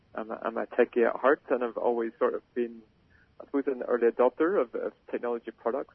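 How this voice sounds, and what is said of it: Non-Australian foreign accent. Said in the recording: “you can probably tell from my accent that I'm not, I wasn't born and grown up in Australia”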